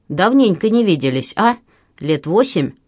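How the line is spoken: Snort. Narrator (Russian): Тот хмыкнул

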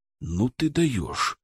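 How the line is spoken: Whisper in ear. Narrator (Russian): шепнул ему на ухо Александр

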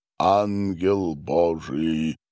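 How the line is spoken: Confident deep bass voice. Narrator (Russian): уверенно пробасил диакон

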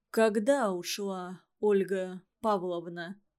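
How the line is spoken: Even, level voice. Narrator (Russian): ровным голосом пояснил свой вопрос Иван Иванович

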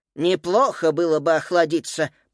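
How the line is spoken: Lisping. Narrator (Russian): прошепелявил Феликс, обнажая цветные пластинки

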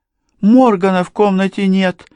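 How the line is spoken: Worried exclamation. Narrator (Russian): воскликнула она обеспокоенно

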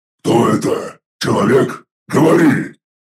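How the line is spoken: Deep barking demon bass. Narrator (Russian): Пробасил с нотками собачьего лая 3-метровый демон

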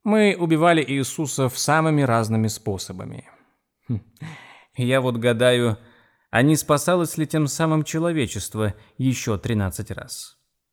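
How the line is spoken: Laughing. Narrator (Russian): Эйвери рассмеялся

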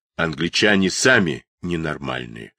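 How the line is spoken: Angry huffing. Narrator (Russian): злобно пыхтел Миллер

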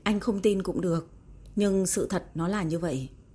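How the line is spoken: Cold, stern. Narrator (Vietnamese): Diệp Tử Ái vẫn cứng rắn nghiêm nghị lạnh lùng nói

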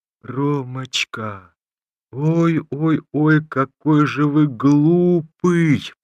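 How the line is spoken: Thin childlike drawl. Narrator (Russian): протянула она знакомым Ромашову тоненьким детским голосом

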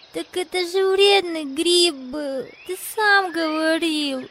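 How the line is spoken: Girl answering through tears. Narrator (Russian): сквозь слезы ответила девочка

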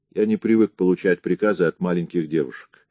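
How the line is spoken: Calm reply. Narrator (Russian): спокойно ответил Гарри

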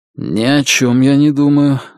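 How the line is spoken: Strained, forced out. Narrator (Russian): выдавил он из себя

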